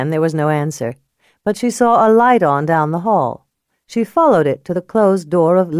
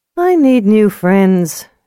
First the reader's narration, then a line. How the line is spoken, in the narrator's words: she sighed